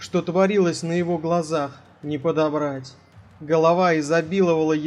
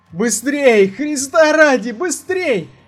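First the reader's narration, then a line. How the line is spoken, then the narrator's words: Loud exhausted yell. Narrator (Russian): завопил так громко, насколько позволяло утомление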